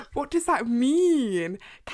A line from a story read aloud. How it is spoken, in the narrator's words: Cassian roar, like, he's going, rawr